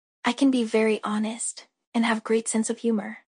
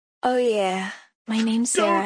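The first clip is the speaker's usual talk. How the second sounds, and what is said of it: Sultry, breathy delivery. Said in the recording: “why did you say it all sultry?”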